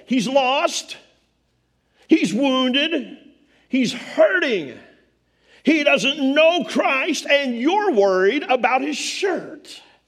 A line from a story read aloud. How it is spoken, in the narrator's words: I wanted to yell